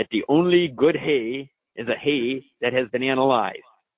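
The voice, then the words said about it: Put-on German accent. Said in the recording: “I like my German accent there.”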